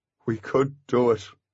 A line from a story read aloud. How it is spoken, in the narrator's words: mumbled Artemis